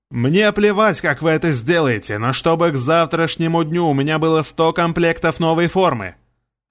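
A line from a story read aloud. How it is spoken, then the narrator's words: Loud shouting. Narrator (Russian): Орал там кто-то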